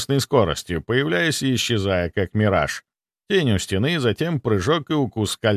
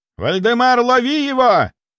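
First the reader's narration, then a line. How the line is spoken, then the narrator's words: Yelling. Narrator (Russian): орал Михайлов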